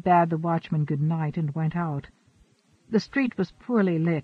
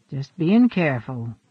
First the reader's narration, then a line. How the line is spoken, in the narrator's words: he said grimly